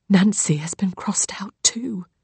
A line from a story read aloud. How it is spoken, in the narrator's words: Lily whispers